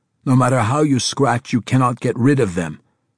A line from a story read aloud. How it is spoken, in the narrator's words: Safouk snapped irritably